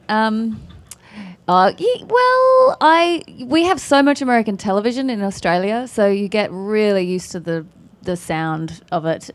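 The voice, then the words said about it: Australian accent. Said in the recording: “you don't think I sound American right now? No? Not at all? No? It's my Australian accent.”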